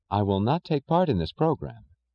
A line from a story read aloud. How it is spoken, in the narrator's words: she said evenly